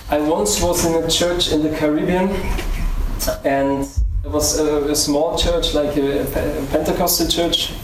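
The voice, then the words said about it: German accent. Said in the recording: “Excuse my German accent. I can't help it.”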